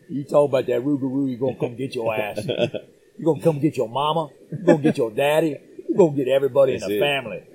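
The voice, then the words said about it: Cajun accent. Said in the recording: “the more you talk about him, the more coon-ass your accent gets ... Cajun accent”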